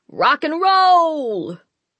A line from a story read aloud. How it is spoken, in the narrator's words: Tex bellowed for some reason